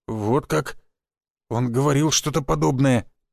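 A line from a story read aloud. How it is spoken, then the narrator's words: Old man mumbling. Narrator (Russian): промямлил бывший глава рода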